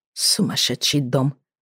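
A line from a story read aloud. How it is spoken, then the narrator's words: Muttering. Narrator (Russian): пробормотала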